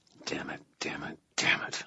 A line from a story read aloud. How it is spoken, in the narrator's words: I muttered